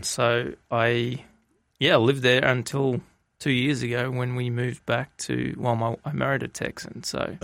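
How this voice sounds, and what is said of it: Australian accent. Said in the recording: “the accent is a little different ... And that is Australia?”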